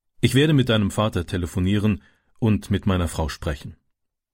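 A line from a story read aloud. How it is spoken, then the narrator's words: Plain. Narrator (German): sagte der Bauer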